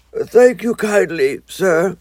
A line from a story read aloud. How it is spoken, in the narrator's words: said the toad in a feeble voice